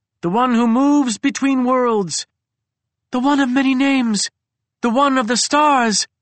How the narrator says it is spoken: cried another

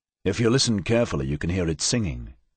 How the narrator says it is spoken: Campion said softly

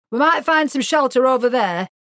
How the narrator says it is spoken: he shouted

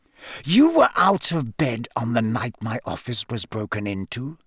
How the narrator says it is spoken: Snape hissed

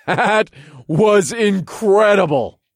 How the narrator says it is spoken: I laughed

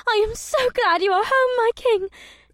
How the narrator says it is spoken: Ibsith squealed

